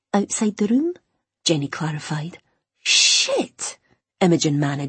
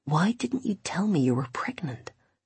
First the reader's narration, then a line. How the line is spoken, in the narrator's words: He whispered